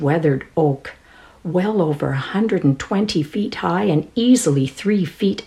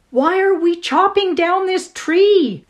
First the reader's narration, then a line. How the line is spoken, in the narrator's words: shouted over the racket